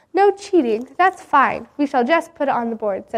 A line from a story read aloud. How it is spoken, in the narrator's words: said the teacher